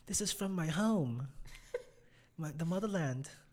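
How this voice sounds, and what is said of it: Put-on British accent. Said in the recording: “In a British accent.”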